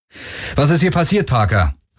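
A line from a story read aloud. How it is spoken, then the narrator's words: Calling out. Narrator (German): rief Garland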